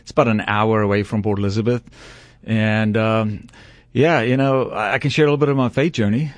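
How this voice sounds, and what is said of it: South African accent. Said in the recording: “You do have a Southern accent ... Well, I'm from the Deep South ... South Africa”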